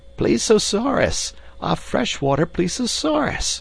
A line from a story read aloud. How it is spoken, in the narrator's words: cried Summerlee